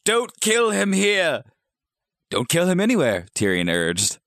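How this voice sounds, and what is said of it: Voice of the character Tyrion. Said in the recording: “that was a good Tyrion impression”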